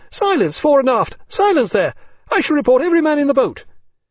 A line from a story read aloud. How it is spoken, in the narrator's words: his voice growing shriller at every repetition